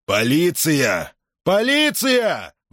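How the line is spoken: Roar. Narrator (Russian): взревел он

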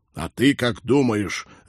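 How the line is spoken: Captain's reckless bark. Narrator (Russian): рявкнул капитан, решив, что хуже уже не будет

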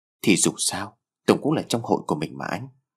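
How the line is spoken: Soft, slightly sad. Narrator (Vietnamese): Lan đôi mắt có vẻ hơi buồn bã, cô nói giọng nhỏ nhẹ

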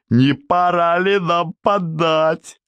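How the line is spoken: Joyful roar. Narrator (Russian): Радостно взревел Старовойтов

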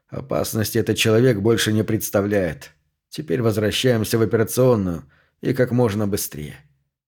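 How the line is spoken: Mutter. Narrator (Russian): Пендергаст пробормотал

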